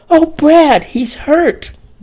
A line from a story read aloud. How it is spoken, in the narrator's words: Dorrie exclaimed